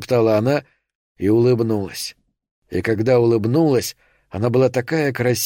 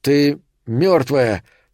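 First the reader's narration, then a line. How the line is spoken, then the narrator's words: Strained, effortful speech. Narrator (Russian): сказал Томми, и усилие, потребовавшееся, чтобы заговорить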